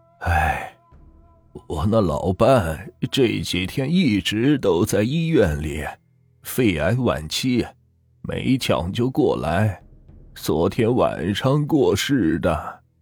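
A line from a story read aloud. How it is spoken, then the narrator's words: Old man sighing. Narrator (Chinese): 老头叹了口气，说道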